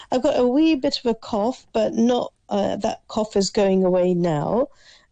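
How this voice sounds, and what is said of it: Voice sounds like a cold. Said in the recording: “you can hear my voice. It still sounds as if I've got a bit of a cold.”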